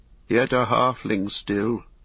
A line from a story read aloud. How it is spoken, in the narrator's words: said Denethor grimly